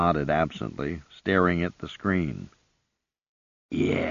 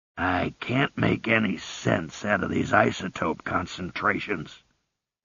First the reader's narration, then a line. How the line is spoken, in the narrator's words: he growled